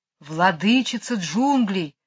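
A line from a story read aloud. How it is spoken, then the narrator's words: Ritual hissing chorus of snakes. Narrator (Russian): прошипели все змеи хором, словно и вопрос, и ответ были частью хорошо известного им церемониала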